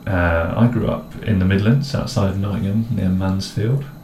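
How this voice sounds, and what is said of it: Posh English accent. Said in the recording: “I have quite a bit of a muddled accent, I'd say. ... He's got a posh accent. ... I've got a posh accent.”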